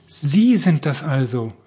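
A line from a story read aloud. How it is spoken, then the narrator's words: Called out. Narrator (German): rief er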